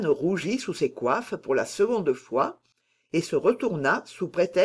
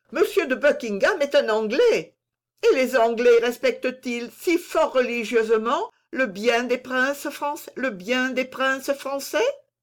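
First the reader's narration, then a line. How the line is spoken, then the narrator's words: Exclaimed. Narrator (French): s'écria Philippe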